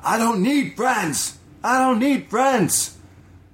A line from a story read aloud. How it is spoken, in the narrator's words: starts yelling aggressively